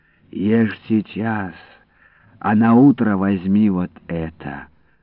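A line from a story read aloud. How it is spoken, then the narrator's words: Gentle speech. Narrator (Russian): ласково сказала тетя Марта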